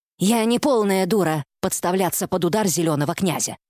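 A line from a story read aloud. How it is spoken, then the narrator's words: Grumbling. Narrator (Russian): пробурчала матриарх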